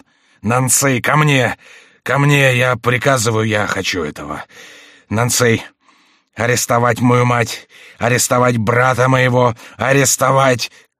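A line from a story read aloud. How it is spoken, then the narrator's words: Choking wheeze, cut off. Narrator (Russian): Кровь хлынула и прервала слова Карла … король, задыхаясь, захрипел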